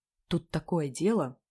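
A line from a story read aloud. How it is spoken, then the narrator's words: Whispered. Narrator (Russian): зашептала я Сереге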